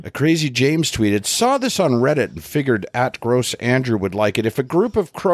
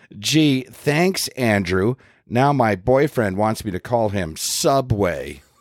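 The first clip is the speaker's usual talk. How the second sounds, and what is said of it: Sarcastic reading voice. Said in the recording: “in a sarcastic voice”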